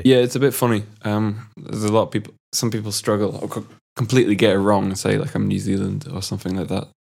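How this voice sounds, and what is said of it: Mixed English, Scottish and Orcadian accent. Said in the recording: “I couldn't place the accent. You've kind of got like a mix of the three. ... It's a funny accent. It's like a mixture of English and Scottish and Orcadian ... It's got a weird twang to it as well, quite unique.”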